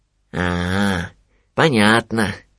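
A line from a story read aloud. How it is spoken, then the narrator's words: Thoughtful drawl. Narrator (Russian): задумчиво протянул Винни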